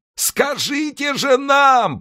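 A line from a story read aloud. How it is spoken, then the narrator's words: Offended shout. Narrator (Russian): прокричал человек, попросту разобиженный, но не потерявший человеческий облик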